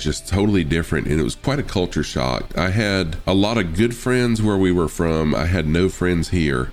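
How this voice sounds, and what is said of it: Southern US accent. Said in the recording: “Right now I've got that kind of southern, you know, that southern accent”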